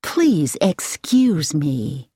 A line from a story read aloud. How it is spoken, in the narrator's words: the woman said in a pleasant voice with an American accent